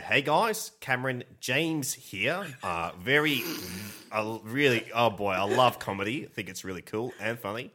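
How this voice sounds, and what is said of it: Imitates another person's voice. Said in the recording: “my Cameron James impression ... Sounds a lot like Rhys Darby.”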